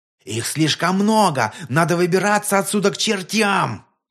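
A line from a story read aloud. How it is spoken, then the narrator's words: Panicked yell. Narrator (Russian): Кто-то из другого взвода завопил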